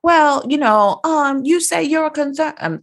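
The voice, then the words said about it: Poor imitation of Dorit's accent. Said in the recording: “That's a horrible accent.”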